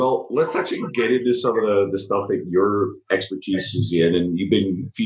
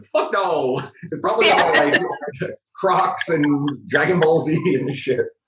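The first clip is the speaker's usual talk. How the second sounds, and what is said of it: Imitates another person's voice. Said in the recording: “do my best mic impression.”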